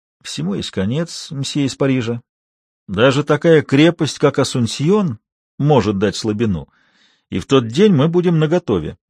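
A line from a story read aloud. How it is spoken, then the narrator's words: Barely audible man. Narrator (Russian): Мужчина чуть слышно проговорил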